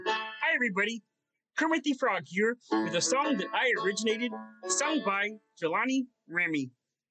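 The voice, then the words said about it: Kermit the Frog character voice. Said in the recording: “I'm going to try my Kermit impersonation.”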